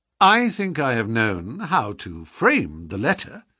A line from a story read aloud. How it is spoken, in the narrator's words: said Sherlock Holmes